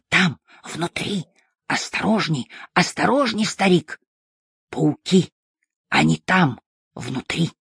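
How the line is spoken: Excited whisper. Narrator (Russian): он возбужденно зашептал

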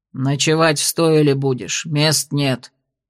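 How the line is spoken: Gruff innkeeper's mutter. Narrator (Russian): буркнул трактирщик

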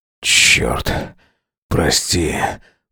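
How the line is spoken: Breathed out. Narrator (Russian): выдохнул он

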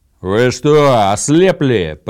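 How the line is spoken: Roaring. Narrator (Russian): проревел Гудмунд

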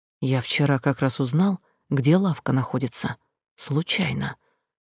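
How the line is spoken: Near whisper. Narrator (Russian): почти шепотом дополнил

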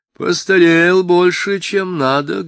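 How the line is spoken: Drawling, singsong, lazy. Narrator (Russian): говорила она, растягивая слова, певучи, лениво

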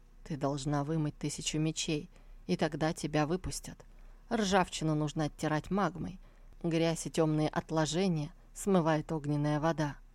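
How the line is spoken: Composed, calm voice. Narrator (Russian): успел вернуть себе самообладание и поэтому проговорил вполне спокойным голосом

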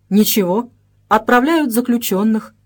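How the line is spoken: Calm reply. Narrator (Russian): спокойно ответил

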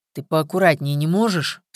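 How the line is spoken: Through gritted teeth. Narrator (Russian): сквозь зубы процедил Виктор

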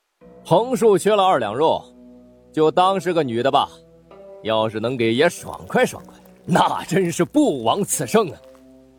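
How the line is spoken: Loud distant chiming in. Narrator (Chinese): 撒尿的人 在那边高声凑话道

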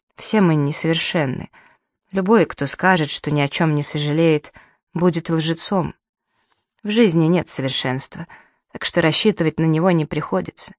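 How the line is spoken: Tearful mumble. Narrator (Russian): Едва сдерживая слезы, пробормотала

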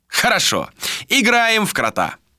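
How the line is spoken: Loud. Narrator (Russian): громко произнес

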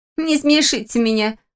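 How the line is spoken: Scoffing young woman. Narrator (Russian): фыркнула четвертая девушка

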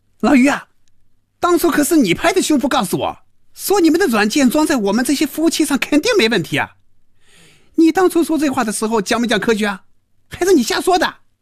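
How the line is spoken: Furious shouting. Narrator (Chinese): 赵平凡被余威彻底激怒了，真要骂人了，大声嚷着

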